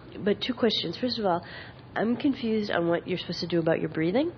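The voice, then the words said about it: Congested, stuffy voice. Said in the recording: “sorry, I have a cold.”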